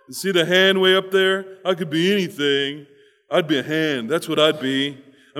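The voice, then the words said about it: Comic character voice for a foot. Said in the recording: “give the foot a voice ... this is what a foot sounds like to me”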